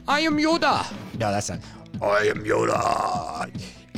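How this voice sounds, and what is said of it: Poor Yoda character voice. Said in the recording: “I'm terrible at impersonations. ... That was actually embarrassing.”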